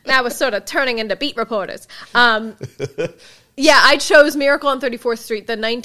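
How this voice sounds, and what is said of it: Put-on transatlantic accent. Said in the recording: “I'm going to try to talk with a transatlantic accent for much of this intro to show you that I can”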